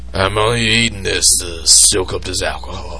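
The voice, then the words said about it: Imitates another person's voice. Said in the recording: “this is you. This is my bullshit impression”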